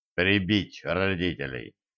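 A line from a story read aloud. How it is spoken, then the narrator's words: Muttering. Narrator (Russian): пробормотал Кощей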